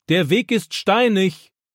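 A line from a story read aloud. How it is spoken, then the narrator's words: Grandfather calling after. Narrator (German): ruft Opa ihm nach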